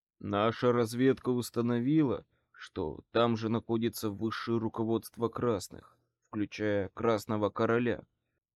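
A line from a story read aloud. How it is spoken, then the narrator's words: Quiet. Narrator (Russian): негромко сказал Морган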